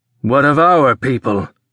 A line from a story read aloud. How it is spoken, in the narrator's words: Carr growled